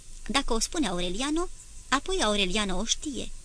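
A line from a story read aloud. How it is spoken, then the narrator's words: Plain. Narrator (Romanian): zise ea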